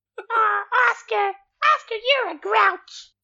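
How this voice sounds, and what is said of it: Elmo puppet character voice. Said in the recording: “I could do a really good Elmo impression”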